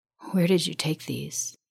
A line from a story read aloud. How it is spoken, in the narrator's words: He breathed